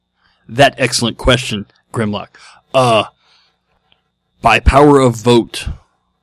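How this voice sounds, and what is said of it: Caveman-like robot voice. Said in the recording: “in your best Neanderthal robot voice... that was lame... that was really lame”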